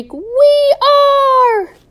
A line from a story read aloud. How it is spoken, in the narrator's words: The possums shriek